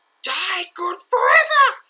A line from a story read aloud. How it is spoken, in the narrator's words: he roars